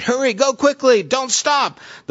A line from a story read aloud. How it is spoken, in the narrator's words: he shouted